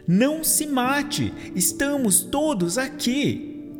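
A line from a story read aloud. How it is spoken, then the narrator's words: Shouting. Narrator (Portuguese): Paulo gritou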